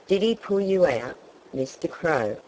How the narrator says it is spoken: asked Jimmy Rabbit

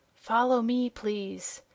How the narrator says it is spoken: The officer with the blue gold chain whispered

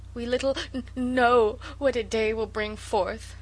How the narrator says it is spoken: sobbed Sarah

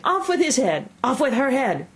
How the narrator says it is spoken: the Queen was in a furious passion, and went stamping about and shouting

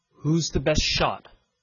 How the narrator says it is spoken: asked the captain

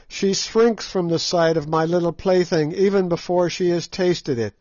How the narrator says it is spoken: cried Scraga in a high glee

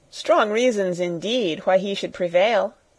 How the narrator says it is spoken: said Sarah, endeavoring to laugh

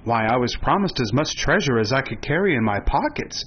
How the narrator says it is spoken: replied Ruggedo

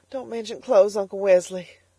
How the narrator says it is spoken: sobbed Elnora

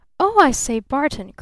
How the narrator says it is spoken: cried the newcomer breathlessly

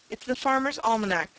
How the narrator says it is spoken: said Timothy Turtle

